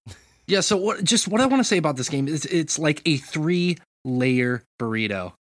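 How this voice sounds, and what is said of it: Imitates another person's voice. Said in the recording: “I'll do my impersonation of Morgan again.”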